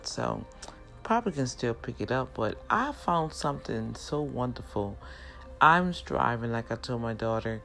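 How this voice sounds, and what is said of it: New Orleans accent. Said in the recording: “I know by my accent, some words are not articulated like some would like ... when native New Orleans speak and they get excited ... we speak kind of fast ... individuals can pick up on an accent”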